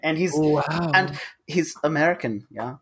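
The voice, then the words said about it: Put-on German accent. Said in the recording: “I put on a German accent.”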